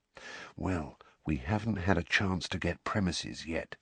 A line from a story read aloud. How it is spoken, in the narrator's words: said Fred, dropping his voice even lower